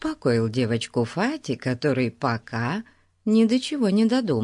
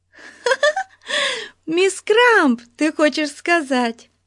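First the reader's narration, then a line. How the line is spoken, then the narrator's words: Giggling. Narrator (Russian): хихикнула Бетси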